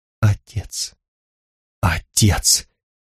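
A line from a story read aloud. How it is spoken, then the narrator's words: Whisper. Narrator (Russian): сказал Луар шепотом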